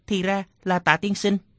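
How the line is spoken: Terrified trembling voice. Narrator (Vietnamese): Thạch Trung Ngọc khiếp sợ chỉ run rẩy nói

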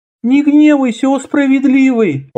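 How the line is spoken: Timid, head lowered. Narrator (Russian): робко молвила чумазая истица, не поднимая головы

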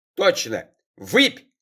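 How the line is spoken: Old man's sudden yell. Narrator (Russian): Дед Мотя резко и неожиданно заорал

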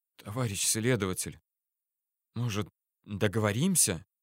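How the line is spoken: Stammering whisper. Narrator (Russian): заикаясь, прошептал он

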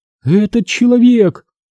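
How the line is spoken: Cracked-voice pronouncement. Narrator (Russian): изрекла она надтреснутым голосом

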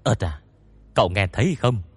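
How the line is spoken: Low whisper. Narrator (Vietnamese): Tôn Mập hạ giọng thì thào

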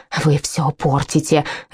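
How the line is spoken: Hissed. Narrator (Russian): зашипела

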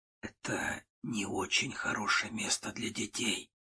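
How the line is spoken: Secretive whisper. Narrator (Russian): прошептал я, чтобы девочка не услышала

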